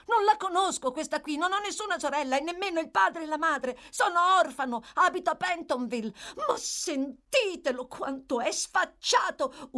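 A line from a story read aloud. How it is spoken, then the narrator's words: Girl screaming. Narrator (Italian): urlò la ragazza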